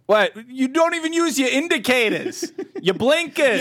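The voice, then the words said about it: Put-on angry Boston accent. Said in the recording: “a bunch of angry Bostons ... all the Boston slang that would be offensive in any other accent. But in that accent, it's just like, what? That's just how we talk.”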